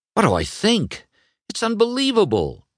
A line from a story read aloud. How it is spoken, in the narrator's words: Lightning exclaimed